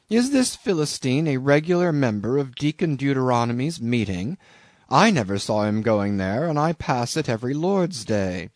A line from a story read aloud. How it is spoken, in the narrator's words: cried Bildad